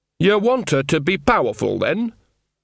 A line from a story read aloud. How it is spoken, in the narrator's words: There was a snort